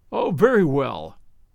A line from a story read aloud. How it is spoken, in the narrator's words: laughed Toza